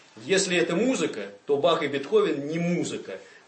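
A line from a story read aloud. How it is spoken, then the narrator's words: Loud booming bass. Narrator (Russian): громко полил басом какой-то интеллигентный завсегдатый собраний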